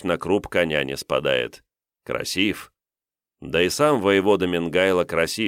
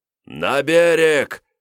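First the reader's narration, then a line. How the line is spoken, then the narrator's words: Loud yelling. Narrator (Russian): громко орал воевода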